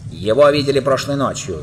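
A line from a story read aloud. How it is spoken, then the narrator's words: Shouting. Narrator (Russian): закричал обезьян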